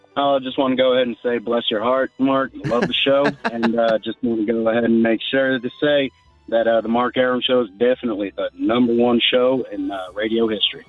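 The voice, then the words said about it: Convincing Georgia Southern accent. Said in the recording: “let's hear your Southern accent ... that's a Georgia boy accent ... You've chameleoned yourself very well”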